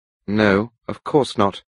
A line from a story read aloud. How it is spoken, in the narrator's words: I replied coldly